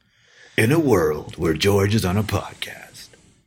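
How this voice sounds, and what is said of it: Dramatic movie-trailer announcer voice. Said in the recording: “announcer voice.”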